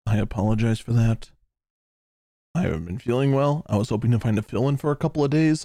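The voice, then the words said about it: Hoarse voice. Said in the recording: “I'm going to sound a little hoarse.”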